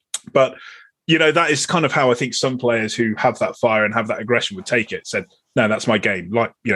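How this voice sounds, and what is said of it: Usual voice. Nothing is said of it.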